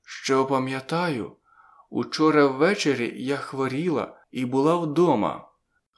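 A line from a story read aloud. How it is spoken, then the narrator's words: Careful, hoarse voice. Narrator (Ukrainian): говорила обережно, хрипким голосом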